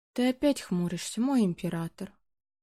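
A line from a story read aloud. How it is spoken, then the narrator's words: Purring young woman. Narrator (Russian): Промурлыкала девушка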